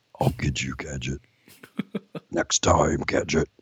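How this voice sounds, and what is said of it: Cartoon villain character voice. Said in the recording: “That's a really good Dr. Claw impression ... That's more Dr. Claw.”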